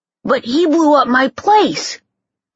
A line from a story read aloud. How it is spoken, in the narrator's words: Jimmy spluttered